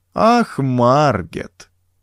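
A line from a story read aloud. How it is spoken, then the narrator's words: Drawn-out reproachful. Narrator (Russian): протянул он укоризненно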